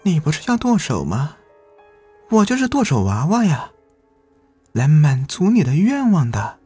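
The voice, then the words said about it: Eerie, cold doll voice. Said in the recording (Chinese): “娃娃用很诡异、冰冷的声音说道”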